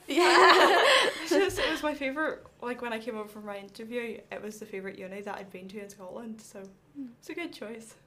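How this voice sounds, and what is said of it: Northern Irish accent. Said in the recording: “I'm from Northern Ireland, hence the accent.”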